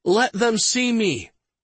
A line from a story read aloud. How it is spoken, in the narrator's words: He shouted